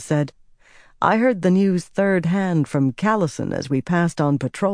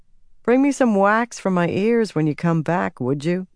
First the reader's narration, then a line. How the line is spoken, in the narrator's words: Birgitta chuckled